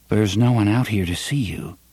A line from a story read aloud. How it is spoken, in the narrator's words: the young man said in a maddeningly reasonable voice